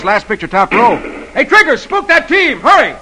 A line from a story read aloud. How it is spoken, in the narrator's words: shooting at the outlaws, yells